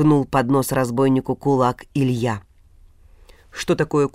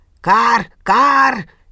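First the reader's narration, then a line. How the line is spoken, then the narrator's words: Frantic crow screaming. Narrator (Russian): истошно заорали вороны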